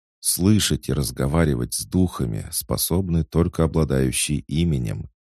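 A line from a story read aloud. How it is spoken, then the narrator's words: Calm even tone. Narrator (Russian): спокойным ровным тоном ответила Дора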